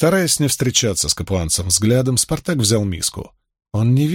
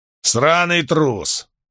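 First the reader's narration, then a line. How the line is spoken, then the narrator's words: Growling. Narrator (Russian): прорычал Фортис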